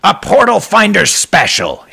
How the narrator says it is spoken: his landlord cried as if the portal had brought Malcolm nothing but joy

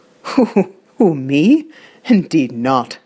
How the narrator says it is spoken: laughs for the first time in the day, then says

